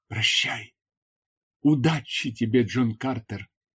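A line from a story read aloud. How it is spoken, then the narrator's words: Woman whispering. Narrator (Russian): прошептала она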